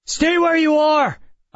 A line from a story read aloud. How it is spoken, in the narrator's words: I shouted